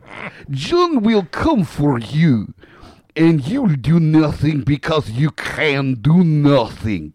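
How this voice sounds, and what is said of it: Poor put-on Russian accent. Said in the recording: “That was worse than a Russian accent in Glow.”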